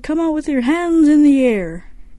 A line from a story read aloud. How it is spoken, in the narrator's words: The cops yelled